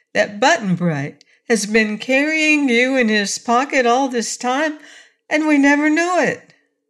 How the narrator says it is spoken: cried Dorothy

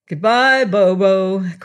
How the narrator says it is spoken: cried the assembled courtiers, who were almost beside themselves with laughter

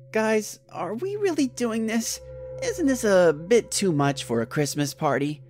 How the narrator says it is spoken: I said in a hesitant voice

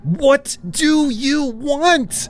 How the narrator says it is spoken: I screamed

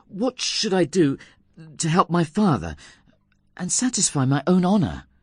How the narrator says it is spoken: anxiously asked him

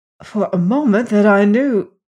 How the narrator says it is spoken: gasped Cairn

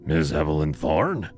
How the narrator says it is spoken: His voice was a rough rasp, like sandpaper against bone

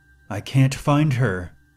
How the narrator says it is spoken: the woman cried out

